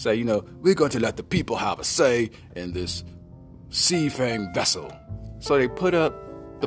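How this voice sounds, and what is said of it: Usual voice. Nothing is said of it.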